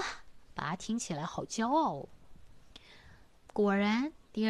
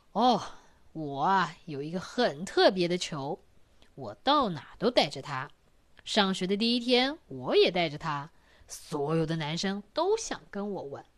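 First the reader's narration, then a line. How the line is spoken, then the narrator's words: Father, smiling. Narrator (Chinese): 爸爸笑一笑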